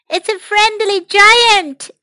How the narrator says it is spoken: shouted Topsy and Tim

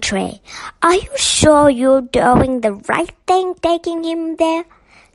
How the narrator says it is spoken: she exclaimed

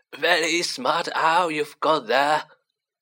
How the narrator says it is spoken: chuckled Tom

